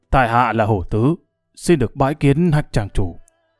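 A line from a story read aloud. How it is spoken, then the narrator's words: Raised voice. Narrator (Vietnamese): cao giọng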